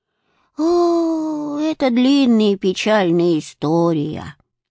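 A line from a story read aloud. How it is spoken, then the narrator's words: Old woman sighing. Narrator (Russian): вздохнула старушка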